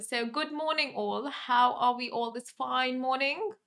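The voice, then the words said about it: Put-on English accent. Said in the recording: “I can't do Cockney slang, but I'll just do the English accent that I know.”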